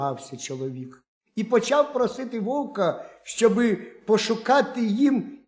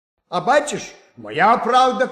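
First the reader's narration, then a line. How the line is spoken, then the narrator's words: Wolf shouting. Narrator (Ukrainian): крикнув вовк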